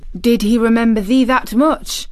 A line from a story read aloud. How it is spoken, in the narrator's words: exclaimed Martha